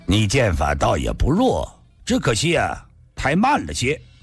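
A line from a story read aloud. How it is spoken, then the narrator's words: Calm, faint laugh. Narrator (Chinese): 白衣人淡淡地笑道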